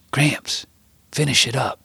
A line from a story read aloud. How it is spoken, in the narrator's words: I tried to whisper as soft as I could across the table